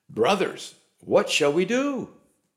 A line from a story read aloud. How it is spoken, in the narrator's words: they were cut to the heart and cried out to Peter and the other apostles